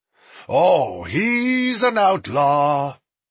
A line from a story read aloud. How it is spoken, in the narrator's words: Smoke bellowed to the empty trail ahead